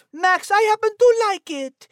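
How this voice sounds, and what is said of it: Heavy put-on accent. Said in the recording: “I thought she already had enough accent.”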